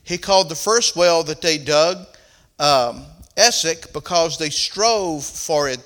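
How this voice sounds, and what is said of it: Southern American accent. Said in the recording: “My southern accent gets in the way”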